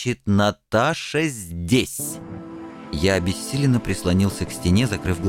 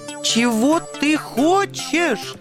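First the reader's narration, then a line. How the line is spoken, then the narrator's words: Shrill falsetto squeal. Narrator (Russian): Сорвавшись на тонкий фальцет, завизжал белый ангел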